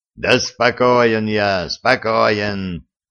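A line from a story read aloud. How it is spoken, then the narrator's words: Growled. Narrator (Russian): прорычал Гордон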